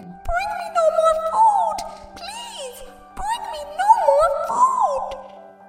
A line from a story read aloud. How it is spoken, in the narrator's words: Thumbling began to shout again